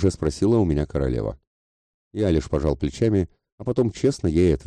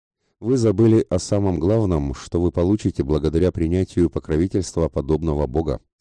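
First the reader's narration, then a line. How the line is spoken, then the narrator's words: Plain. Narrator (Russian): сказал я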